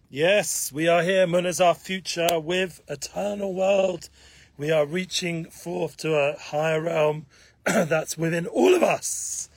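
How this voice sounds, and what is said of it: Hoarse voice. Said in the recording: “Excuse my hoarse voice, it's been a busy week. Haven't slept much, a lot of traveling.”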